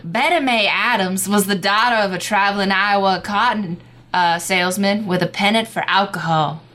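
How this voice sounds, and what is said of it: Old-timey coastal southern accent. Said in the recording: “I was not ready for that accent ... the default coastal southern ... For anything old-timey”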